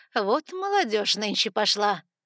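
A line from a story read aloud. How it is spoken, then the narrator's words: Snorting woman. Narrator (Russian): фыркнула женщина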